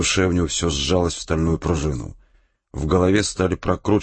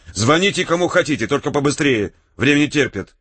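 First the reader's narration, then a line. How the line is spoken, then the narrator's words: Irritated. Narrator (Russian): сказал раздраженно Серьговский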